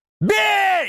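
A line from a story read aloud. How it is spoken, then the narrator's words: Yelling at full force. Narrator (Russian): я заорал со всей дури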